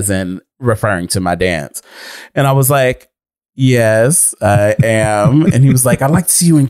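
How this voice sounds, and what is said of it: Usual voice. Nothing is said of it.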